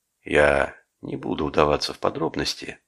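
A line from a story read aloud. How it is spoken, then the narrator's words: Plain. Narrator (Russian): сказал он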